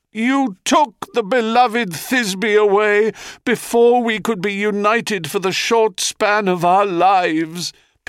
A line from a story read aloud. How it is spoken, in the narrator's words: Pyramus cries to the heavens